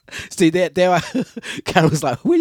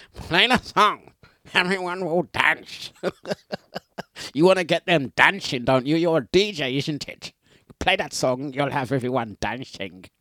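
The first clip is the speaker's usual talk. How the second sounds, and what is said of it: Imitates another person's accent. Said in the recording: “where do you get them accents from ... Dlux does accents. I do my accents ... That was your accent, Carol. That's how you speak, Carol.”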